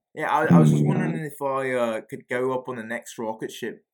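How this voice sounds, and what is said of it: Put-on Australian accent. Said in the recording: “What do you mean I'm copying your Australian accent? ... Was this his excuse to do his Australian accent?”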